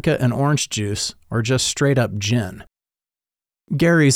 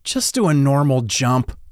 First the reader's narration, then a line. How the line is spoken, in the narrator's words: I groaned, trying my best to dampen his enthusiasm on purpose